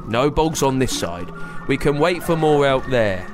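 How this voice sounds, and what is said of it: Gruff character voice. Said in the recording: “in that gruff voice.”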